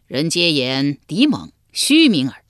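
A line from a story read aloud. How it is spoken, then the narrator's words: Laughing, scornful remark. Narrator (Chinese): 魏懿公笑道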